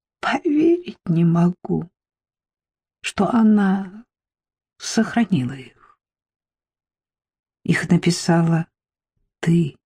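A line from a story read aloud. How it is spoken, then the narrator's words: Soft reply. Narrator (Russian): мягко отозвалась я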